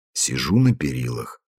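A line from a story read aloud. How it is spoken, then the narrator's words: Quiet answer. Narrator (Russian): ответил он тихо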